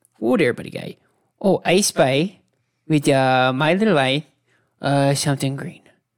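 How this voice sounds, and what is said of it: Put-on cartoon accent. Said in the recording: “I gotta get in the fucking accent again”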